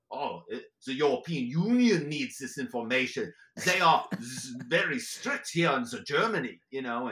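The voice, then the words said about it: Put-on German accent. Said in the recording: “this guy and his crazy accent”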